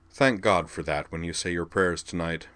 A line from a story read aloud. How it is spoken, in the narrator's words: Sionji advised him dryly